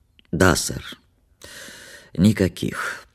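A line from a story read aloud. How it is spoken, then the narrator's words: Sleepy, hoarse, stifling yawn. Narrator (Russian): подтвердил он сонно своим хриплым голосом без особого почтения и с трудом подавил зевок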